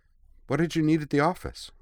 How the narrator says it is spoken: said Yui cheerfully

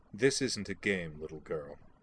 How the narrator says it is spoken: Laura said coldly

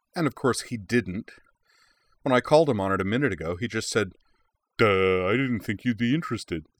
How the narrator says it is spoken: she added in an exaggerated dumb guy voice

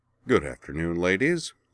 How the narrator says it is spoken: the new arrival said in a smooth, pleasant voice

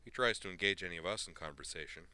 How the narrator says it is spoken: he said flatly

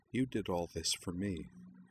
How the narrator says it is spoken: said Utrina softly

